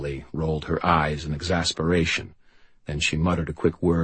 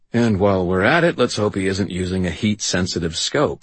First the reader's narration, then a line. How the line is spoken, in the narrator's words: I said dryly